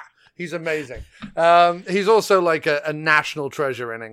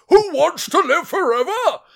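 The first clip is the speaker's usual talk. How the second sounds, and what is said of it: Imitates another person's voice. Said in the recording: “my Brian Blessed impression ... He talks like this.”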